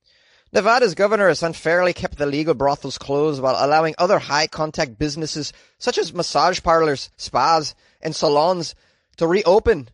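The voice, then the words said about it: Put-on Irish accent. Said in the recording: “I'm going to try and do an Irish accent just to keep with her personality. ... That was pretty good, right?”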